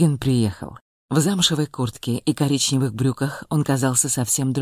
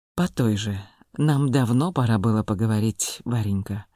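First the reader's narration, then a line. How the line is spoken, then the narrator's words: Affectionate. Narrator (Russian): ласково произнес Волгин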